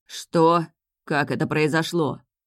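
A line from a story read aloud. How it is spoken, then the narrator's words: Gloomy question. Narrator (Russian): мрачно спросил правитель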